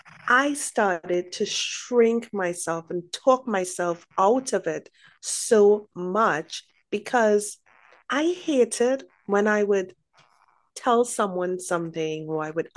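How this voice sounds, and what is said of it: Caribbean accent. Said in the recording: “my accent, my Caribbean accent”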